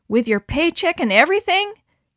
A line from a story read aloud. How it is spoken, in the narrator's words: cried Suzanne